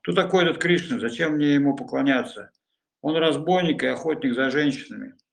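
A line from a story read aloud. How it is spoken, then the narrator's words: Exclaiming. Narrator (Russian): Нимай воскликнул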